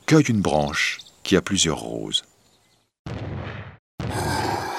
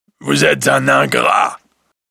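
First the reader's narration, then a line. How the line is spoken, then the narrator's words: Terrible beast voice. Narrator (French): dit la bête d'une terrible voix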